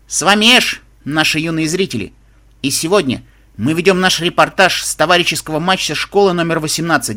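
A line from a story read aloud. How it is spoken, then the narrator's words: Loud on-screen announcement. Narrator (Russian): Мальчишка на экране громко объявил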